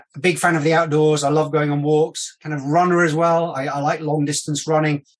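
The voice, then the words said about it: British accent, mixed Yorkshire and London. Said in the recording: “My mum and dad originally from Yorkshire in the UK. I've lived my kind of the last 20 odd years in London. There might be a little bit of mixed accent, but I'm UK, kind of London”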